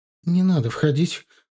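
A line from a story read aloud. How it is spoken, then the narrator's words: Timid request. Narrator (Russian): робко попросила Наташа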